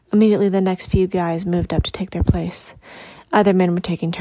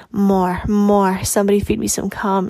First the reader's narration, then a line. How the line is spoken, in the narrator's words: she exclaimed